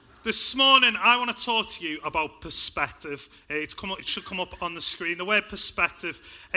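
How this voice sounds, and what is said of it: Liverpool accent. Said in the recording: “I grew up in a place called Liverpool. I hope you can tell by my accent.”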